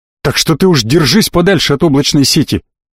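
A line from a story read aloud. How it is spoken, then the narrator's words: Sharp bark. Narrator (Russian): рявкнул он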